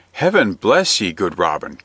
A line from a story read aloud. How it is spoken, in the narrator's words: cried the butcher right joyfully